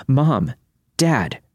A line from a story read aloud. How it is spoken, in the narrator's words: yell out